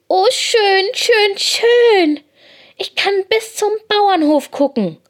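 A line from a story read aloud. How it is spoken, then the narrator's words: Excited. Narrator (German): wackelt ganz aufgeregt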